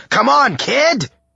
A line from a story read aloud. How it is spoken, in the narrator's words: he yelled